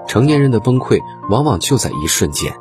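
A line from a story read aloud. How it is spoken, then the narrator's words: Many people sighing. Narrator (Chinese): 不少网友感叹道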